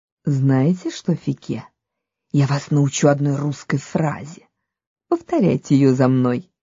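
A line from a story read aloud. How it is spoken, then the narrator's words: Quiet. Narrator (Russian): великий князь тихо сказал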